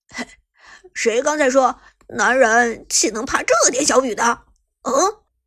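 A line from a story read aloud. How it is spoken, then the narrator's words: Chuckling, teasing. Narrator (Chinese): 马海龙嘿嘿一笑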